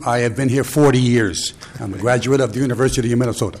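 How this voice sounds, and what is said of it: East Coast American accent. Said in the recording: “don't let the East Coast accent fool you.”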